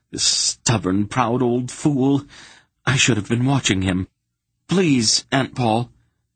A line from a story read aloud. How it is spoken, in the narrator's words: Geryon begged desperately